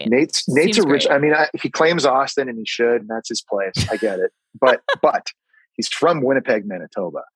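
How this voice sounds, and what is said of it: Canadian accent. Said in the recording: “you have a very similar Canadian accent to Nate”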